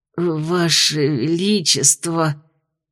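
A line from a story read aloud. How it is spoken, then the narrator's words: Weak whisper. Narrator (Russian): Посиневшими губами прошептал Рик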